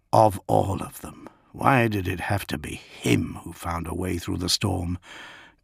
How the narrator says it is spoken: Gilliman whispered

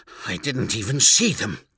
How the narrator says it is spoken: gasped

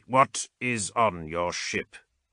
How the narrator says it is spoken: Ulok asked coldly

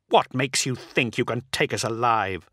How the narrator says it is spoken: Solaro snarled

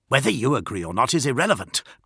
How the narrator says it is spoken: growled Marius

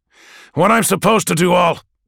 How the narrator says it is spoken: John growls back, his teeth gritted

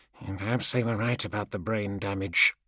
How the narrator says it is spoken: in a mumble

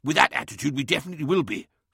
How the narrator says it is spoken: snapped Lemuel, his patience wearing thin

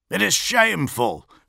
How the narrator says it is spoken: snapped Eidolon

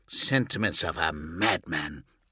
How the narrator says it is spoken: spat

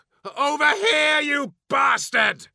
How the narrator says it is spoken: shouted, enjoying the mix of wild emotions surging through his body

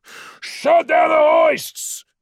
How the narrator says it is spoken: shouted

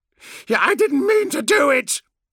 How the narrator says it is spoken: Land yelled at him

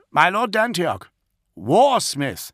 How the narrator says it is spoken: Caspian called out again

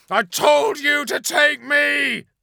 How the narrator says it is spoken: screamed Paladis

